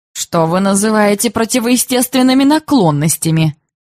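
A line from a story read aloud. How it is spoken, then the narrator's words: Mocking playful tone. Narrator (Russian): спросила насмешливым тоном и, видимо, желая пошалить, баронесса Гахштейн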